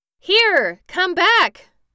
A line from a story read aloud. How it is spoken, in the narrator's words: cried Tip in a frightened voice